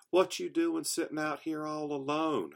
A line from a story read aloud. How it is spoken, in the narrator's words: hollered